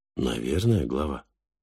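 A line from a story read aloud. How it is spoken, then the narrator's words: Timid. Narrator (Russian): робко ответил Фальк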